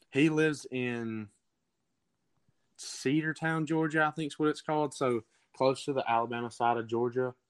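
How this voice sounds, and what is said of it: Southern Alabama accent. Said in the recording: “you have that Alabama accent”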